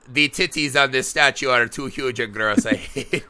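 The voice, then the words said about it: Borat-like accent. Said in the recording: “Why I made him sound like Borat or whatever that accent was I just did”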